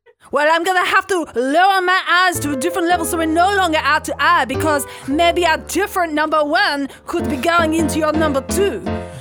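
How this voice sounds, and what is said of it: Speaks with a noticeable accent. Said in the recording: “the accent”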